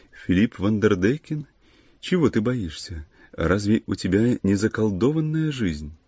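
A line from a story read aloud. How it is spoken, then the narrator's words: Gentle, pleasant female voice. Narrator (Russian): она сказала нежным, приятным голосом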